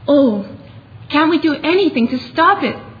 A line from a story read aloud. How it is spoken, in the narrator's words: said Jill in a shaken voice